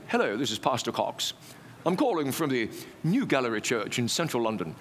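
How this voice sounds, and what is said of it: Imitated English accent. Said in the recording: “with a delightful English accent.”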